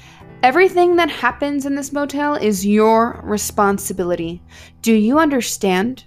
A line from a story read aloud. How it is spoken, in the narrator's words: asked